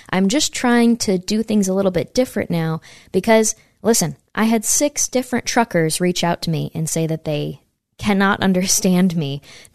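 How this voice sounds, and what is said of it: Loud, near-yelling speech. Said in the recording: “why are you yelling at us? I'm sorry if I'm yelling. ... I'll start talking louder”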